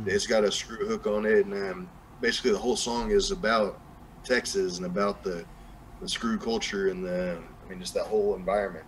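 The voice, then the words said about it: Strong Southern US country accent. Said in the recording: “got a real strong accent, like a southern, more like a what people would associate with like like country accent ... that kind of sound in terms of the voice ... a cool accent ... my old southern accent”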